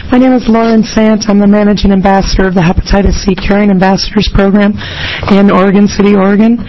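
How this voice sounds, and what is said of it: Strained, weakened hoarse voice. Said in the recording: “forgive my voice. I think I'm speechless over the Oregon weather”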